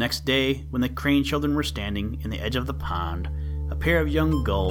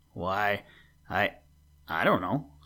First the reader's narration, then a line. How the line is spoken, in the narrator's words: stammered the brother